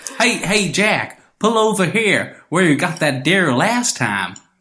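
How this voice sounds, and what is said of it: Put-on American hillbilly accent. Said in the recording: “an Ohio accent ... it sounded like a hillbilly”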